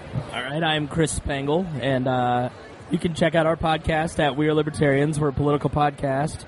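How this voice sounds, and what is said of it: Hoarse, weakened voice. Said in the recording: “my voice doesn't always sound like this. I have half a voice box, thanks to laryngitis”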